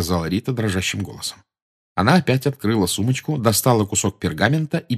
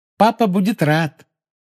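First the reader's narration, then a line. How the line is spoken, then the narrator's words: Cheerful promise. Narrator (Russian): весело пообещала Полумна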